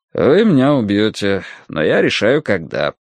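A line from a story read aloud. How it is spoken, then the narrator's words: Bored tone. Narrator (Russian): повторил Нарда скучающим тоном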